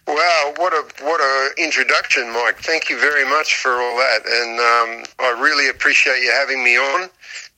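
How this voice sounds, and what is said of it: Australian English accent. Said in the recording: “As people can tell by my accent, I'm Australian”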